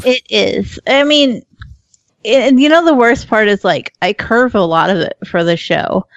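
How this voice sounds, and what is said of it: Speaks with a noticeable regional accent. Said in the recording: “My accent is lovely... he makes fun of my accent so bad... it's an easy accent to make fun of”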